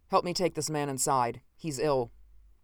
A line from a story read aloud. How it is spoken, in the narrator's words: said sharply